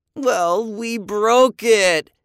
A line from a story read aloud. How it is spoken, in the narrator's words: Andy moaned